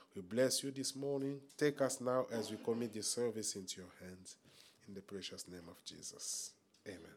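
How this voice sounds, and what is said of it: Congested, stuffy-nosed voice. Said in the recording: “my voice is a little bit, I have a running nose”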